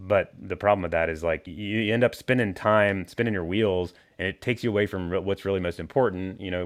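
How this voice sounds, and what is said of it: Usual voice. Nothing is said of it.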